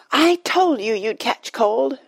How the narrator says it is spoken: shouted Dulcibel

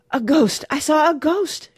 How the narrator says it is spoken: she was gasping

